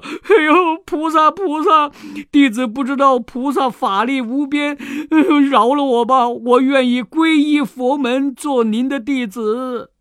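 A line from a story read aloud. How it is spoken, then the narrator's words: Crying. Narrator (Chinese): 红孩儿哭了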